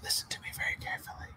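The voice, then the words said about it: Whispering. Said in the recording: “the whole whispering shit”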